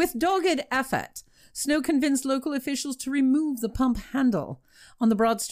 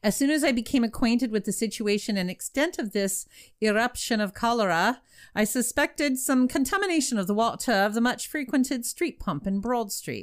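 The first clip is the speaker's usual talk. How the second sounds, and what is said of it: Put-on accent reading a quote. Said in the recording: “There's your accent.”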